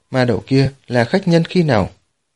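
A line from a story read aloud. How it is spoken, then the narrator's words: Hesitant speech. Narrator (Vietnamese): Hàn Hàng Trần ngập ngừng nói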